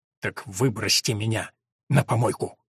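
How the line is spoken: Quiet, restrained fury. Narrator (Russian): Сдерживая занявшуюся ярость, Борис негромко сказал

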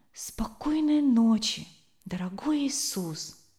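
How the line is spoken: Whisper. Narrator (Russian): прошептал

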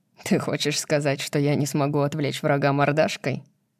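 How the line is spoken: Laughing, mock-offended question. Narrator (Russian): Кит спрашивает сквозь смех и притворяется обиженным

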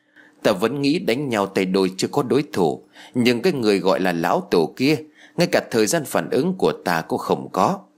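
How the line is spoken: Middle-aged man sighing. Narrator (Vietnamese): Chú trùng niên thở dài rồi nói

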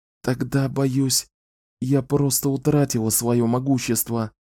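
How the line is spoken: Whispered. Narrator (Russian): прошептала

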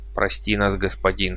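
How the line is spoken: Quiet. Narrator (Russian): произнес он тихо

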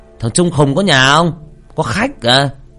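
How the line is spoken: Man shouting. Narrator (Vietnamese): Người đàn ông la lên

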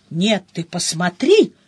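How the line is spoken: Growling. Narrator (Russian): рычала Мышильда

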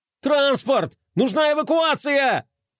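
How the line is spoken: Shouting over radio. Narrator (Russian): кричал Флай в рацию

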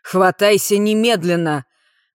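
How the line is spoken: Tense, menacing voice. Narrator (Russian): Голос Бала звучал напряженно и грозно

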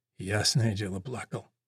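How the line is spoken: Whispered. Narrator (Russian): прошептал огневик

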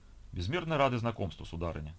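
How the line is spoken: Plain. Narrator (Russian): ответил Николай

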